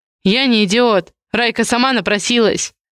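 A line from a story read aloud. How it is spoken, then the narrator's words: Sharp shout. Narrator (Russian): резко выкрикнул Барканский-младший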